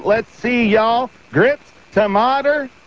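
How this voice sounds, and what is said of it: Put-on Southern US accent. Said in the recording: “practicing my southern accent”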